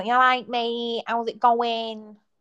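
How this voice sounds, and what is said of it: Exaggerated Manchester accent. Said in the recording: “I'm not as bad as like some Manchester people. Like they speak like,”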